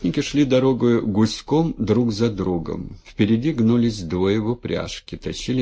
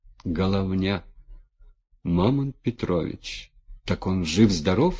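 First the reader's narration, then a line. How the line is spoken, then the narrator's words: Plain. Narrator (Russian): спросил Демид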